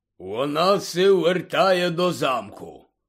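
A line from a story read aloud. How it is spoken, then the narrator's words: Quiet grumble. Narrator (Ukrainian): буркнув неголосно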